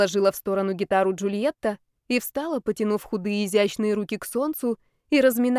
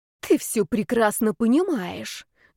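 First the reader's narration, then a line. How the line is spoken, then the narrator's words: Snake-like hiss. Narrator (Russian): змеей прошипел Зарецкий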